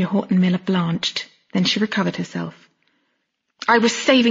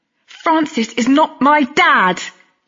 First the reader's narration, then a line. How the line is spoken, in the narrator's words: Lily roared